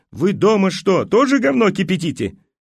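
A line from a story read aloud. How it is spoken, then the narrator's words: Yelling while jumping. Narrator (Russian): Прыгала по подиуму и орала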